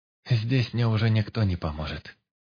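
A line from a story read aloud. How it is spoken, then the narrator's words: Sad. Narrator (Russian): грустно сказала Олесе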